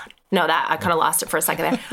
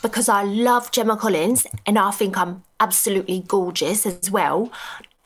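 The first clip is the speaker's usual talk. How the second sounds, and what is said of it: Put-on Essex accent. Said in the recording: “my British accent's sweet. So, like, my best one is Essex ... That was good.”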